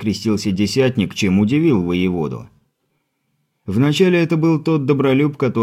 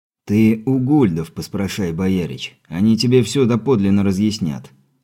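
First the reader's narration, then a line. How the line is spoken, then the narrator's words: Weary sigh. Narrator (Russian): устало вздохнув, проговорил десятник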